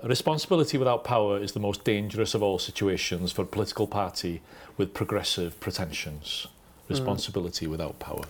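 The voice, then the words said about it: Welsh Anglesey accent, Aneurin Bevan impression. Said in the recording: “This is an Anglesey an Nairn Bevan accent ... I think Bevan did it better ... that was a good go”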